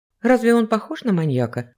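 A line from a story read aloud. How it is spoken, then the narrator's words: Forced calm. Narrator (Russian): попыталась спокойно продолжить разговор Ева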